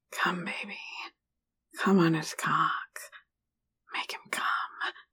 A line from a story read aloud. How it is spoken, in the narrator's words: whispered